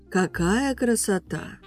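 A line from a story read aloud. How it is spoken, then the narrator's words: Drawn-out admiring. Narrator (Russian): протянула Эмилия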